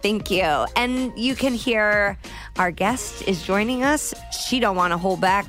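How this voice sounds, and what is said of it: Usual voice. Nothing is said of it.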